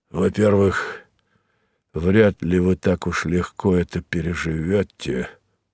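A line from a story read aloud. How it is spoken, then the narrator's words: Sad. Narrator (Russian): грустно сказал он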